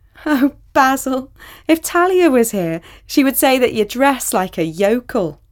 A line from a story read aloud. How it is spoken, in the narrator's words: Sally exclaimed